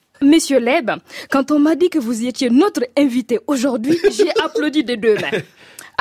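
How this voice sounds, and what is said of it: Burkinabé-accented French. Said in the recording (French): “avec l'accent s'il vous plaît ... je ne savais même pas que j'avais un accent. Moi, je vivais à Ouagadougou, un coin où tout le monde parle comme moi”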